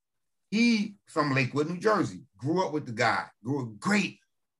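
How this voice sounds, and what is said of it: New Jersey accent. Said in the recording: “You can hear it in my voice. I mean, if you're from Jersey, you can hear the difference between Jersey and New York”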